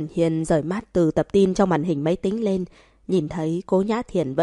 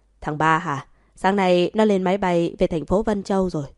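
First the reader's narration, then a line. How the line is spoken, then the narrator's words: Smiling voice. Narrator (Vietnamese): Cố Cần Hiên ... mỉm cười nói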